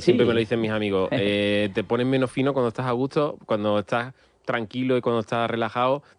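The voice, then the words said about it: Andalusian Seville accent. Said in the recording (Spanish): “este, este uh-huh. acento, que además es andaluz, pero además se nota que es de... es de Sevilla”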